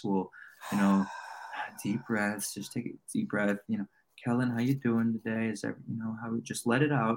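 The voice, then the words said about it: Calm soothing public-radio voice. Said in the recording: “we'll talk in the NPR voice.”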